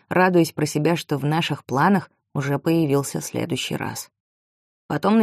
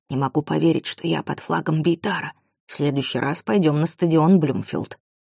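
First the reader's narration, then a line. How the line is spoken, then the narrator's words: Whispered. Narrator (Russian): Амир прошептал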